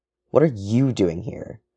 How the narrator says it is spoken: James hisses

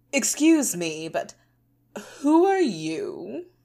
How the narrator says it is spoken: he said in a condescending tone

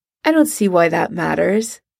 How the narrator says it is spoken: he says evenly

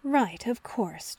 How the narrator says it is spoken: John muttered

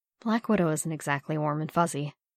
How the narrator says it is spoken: murmured softly

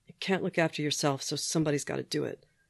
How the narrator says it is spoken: he muttered after a moment

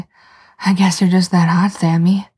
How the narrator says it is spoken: Dean says, gasping

